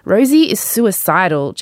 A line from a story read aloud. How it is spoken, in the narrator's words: Jacob snapped